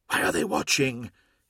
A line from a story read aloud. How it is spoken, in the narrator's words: hissed Hathor Mart